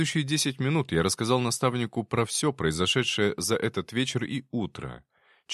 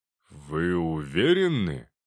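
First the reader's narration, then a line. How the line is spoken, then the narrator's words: Drawl. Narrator (Russian): протянул он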